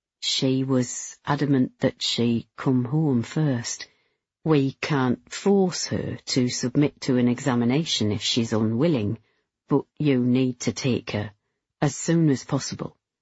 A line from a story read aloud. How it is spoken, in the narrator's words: Very quietly, he said